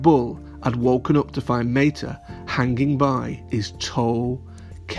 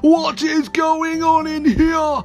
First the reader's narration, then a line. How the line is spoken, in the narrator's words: A booming voice shouted, A booming, booming voice, it shouted